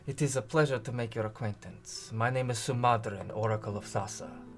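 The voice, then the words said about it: Character voice with an accent. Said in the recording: “Accent. ... That was really good.”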